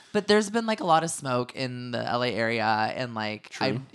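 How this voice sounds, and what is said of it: Slightly cracked, scratchy voice. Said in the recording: “my voice is like a little bit cracked ... You can't hit that register today ... I apologize if I'm a little bit scratchy”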